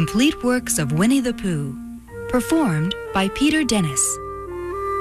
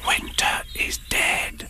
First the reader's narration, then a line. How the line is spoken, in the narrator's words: whispered